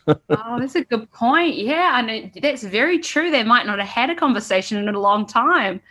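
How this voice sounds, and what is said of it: New Zealand accent. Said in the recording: “the Kiwi accent”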